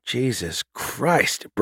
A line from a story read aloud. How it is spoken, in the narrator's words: Bruno hissed